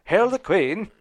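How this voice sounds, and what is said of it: Poor fake English accent. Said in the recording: “I would fake it in an English accent. ... I suck.”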